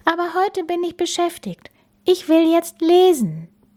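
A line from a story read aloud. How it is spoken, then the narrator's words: Sighing. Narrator (German): seufzte Bella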